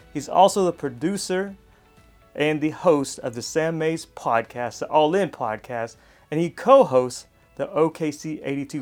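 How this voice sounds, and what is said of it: Announcer-style radio voice. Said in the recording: “I try to get that radio voice”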